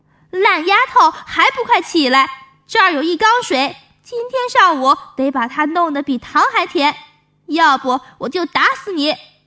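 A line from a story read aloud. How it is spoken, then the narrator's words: Angry shouting stepmother. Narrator (Chinese): 后娘 气得 嚷嚷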